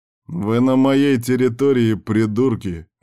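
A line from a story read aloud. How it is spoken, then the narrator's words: Answer with chuckle. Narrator (Russian): ответил вожак и хохотнул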